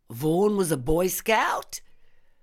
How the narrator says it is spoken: snorted with derision

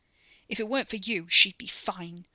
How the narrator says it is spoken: Wes snapped

